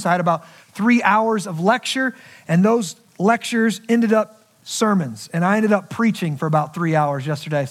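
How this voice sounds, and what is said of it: Rough, strained voice. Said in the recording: “my voice is a little rough this morning... my voice is struggling”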